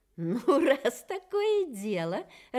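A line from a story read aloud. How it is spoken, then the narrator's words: Laughing bird. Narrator (Russian): рассмеялась птица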